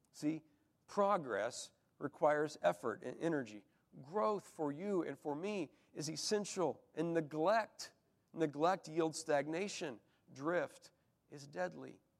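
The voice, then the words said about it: Hoarse, froggy voice. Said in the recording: “my voice is all froggy here”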